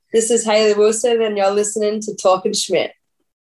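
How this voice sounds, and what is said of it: Thick Australian accent. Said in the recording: “Give it your thickest Australian accent”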